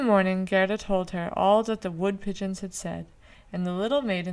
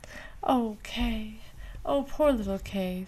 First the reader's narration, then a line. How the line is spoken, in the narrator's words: sighed Gerda